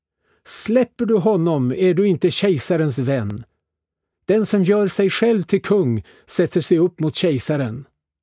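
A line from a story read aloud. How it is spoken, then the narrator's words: Crowd shouting. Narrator (Swedish): judarna skrek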